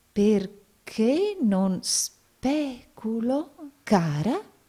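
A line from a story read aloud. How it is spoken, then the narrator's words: Doubtful tone. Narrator (Italian): disse il signor Nickleby in tono di dubbio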